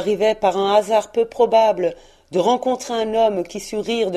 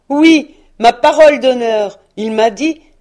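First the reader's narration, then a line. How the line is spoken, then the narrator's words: Exclaimed. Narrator (French): s'écria le neveu de Scrooge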